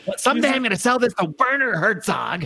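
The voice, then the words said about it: Imitates another person's voice. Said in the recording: “Is that a Howie Snowden impersonation? ... By Timothy Treadwell.”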